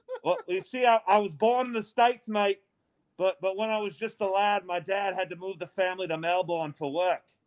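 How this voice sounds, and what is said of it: Put-on Australian accent. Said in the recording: “What's with the accent, then? I just looked up Australian possums, bro.”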